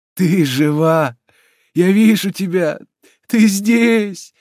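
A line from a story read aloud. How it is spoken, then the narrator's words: Trembling voice. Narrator (Russian): говорил дрожащим голосом Джальма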